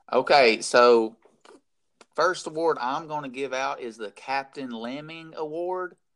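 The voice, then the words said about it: Scratchy, hoarse voice. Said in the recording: “What I'm trying to do is not cough all over the place ... my voice is getting more and more scratchy as we go along, so it ain't going to last”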